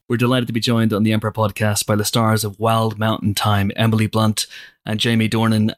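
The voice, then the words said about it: Northern Irish accent. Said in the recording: “my accent gets naturally stronger ... another Northern Irish person and it just gets stronger and stronger and stronger”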